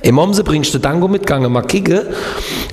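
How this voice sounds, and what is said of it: Southwestern German regional dialect. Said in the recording (German): “wie geht nochmal Kehl am Rhein, wo ich gelebt habe?”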